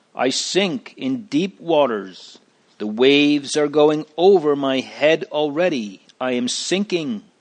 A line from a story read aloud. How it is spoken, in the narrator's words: cried